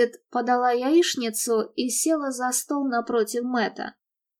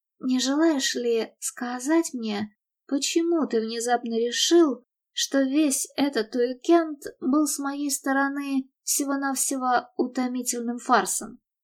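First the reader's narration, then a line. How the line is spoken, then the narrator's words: Restrained calm question. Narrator (Russian): Она сдержанно и спокойно спросила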